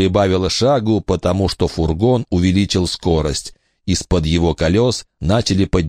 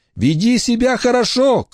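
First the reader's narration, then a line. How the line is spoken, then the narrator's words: Shouted. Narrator (Russian): крикнула Рамона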